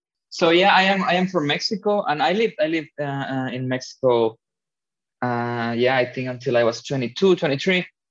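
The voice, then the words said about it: Spanish accent. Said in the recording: “Spanish accent”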